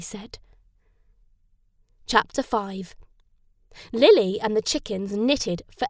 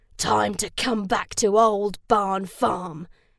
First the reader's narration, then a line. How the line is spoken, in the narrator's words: he snarled